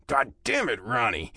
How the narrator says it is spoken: I growl

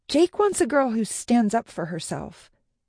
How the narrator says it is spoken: Becca had spat at me

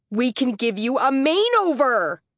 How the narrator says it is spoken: Taylor bellowed

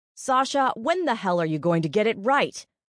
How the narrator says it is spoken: Chef Kelsey shouted

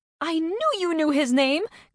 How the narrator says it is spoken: Carney shouted

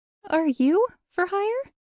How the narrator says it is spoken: she'd squeaked

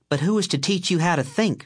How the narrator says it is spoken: she snapped back

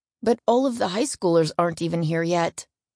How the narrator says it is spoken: Wes groaned

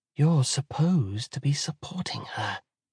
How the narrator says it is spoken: whispers Callidice

